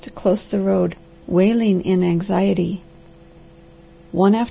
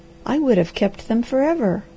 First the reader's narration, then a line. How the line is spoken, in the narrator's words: cried the girl